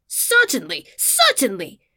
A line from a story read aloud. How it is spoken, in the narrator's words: the peacock entirely agreed, and indeed screamed out